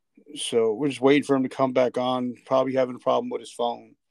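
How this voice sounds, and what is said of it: Congested voice from a cold. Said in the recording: “I have a cold.”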